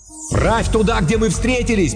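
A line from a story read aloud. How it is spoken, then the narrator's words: Shouting. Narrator (Russian): прокричал разведчик Яфиан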